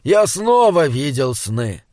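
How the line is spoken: Plain. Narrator (Russian): сказал он наконец

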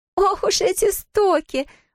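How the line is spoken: Exclaimed. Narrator (Russian): воскликнула она

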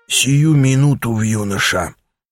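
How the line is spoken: Strained hoarse rasp. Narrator (Russian): прохрипел, с трудом пытаясь подняться, Аякс

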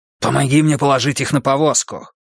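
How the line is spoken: Hissing. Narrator (Russian): прошипел

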